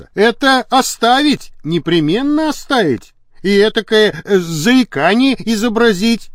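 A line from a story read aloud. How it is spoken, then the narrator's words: Shouting. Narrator (Russian): крикнул он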